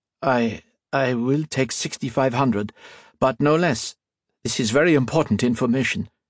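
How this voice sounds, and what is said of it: Reedy voice with Irish lilt. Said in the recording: “a reedy voice ... the second man's voice had an Irish lilt”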